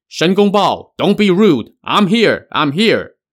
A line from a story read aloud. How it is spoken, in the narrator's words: he heard someone shouting